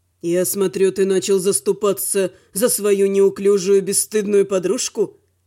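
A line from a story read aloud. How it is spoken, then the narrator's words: Snorting. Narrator (Russian): хмыкнул Велор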